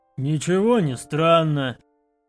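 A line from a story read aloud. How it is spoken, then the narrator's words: Growl. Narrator (Russian): рыкнул на него Оскал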